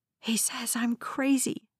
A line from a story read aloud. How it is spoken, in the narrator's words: whispered in my mind